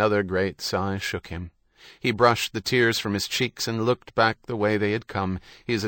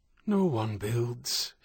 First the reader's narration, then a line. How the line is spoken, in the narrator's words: he whispered